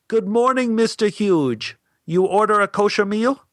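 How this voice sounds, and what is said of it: Heavy put-on Asian accent. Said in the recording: “spoke with a heavy accent”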